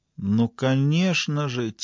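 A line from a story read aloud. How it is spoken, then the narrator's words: Quiet. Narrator (Russian): тихо проговорила она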